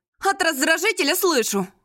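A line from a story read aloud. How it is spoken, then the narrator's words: Snapping, growing angry. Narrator (Russian): огрызнулась я, начиная сердиться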